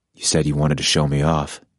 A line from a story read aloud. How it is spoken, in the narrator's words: Adam said in an even voice